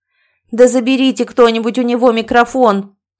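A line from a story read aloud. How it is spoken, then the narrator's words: Barked. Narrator (Russian): кому-то рявкнула Адовна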